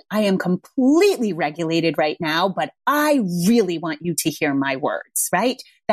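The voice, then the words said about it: Very firm voice, not yelling. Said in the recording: “Saying something firm, and I mean very firm, is not yelling. I am not yelling.”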